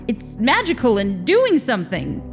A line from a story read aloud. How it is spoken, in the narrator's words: Victor said urgently